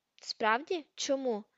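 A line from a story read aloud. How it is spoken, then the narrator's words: Plain. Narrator (Ukrainian): запитала Герміона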